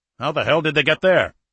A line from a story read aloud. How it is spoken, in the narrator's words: Alexeyev snapped